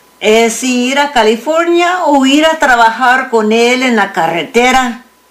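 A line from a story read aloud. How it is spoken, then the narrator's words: Thinking aloud. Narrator (Spanish): León pensó en voz alta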